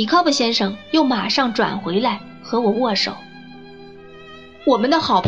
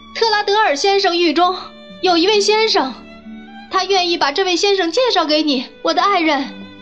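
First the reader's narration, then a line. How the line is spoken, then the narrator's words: Calling out. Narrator (Chinese): 米考布先生从栏杆上向米高布太太叫道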